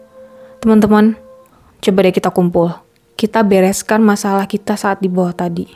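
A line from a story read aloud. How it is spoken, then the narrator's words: Faint, worn-out voice. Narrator (Indonesian): kata Adit dengan sedikit suara yang tersisa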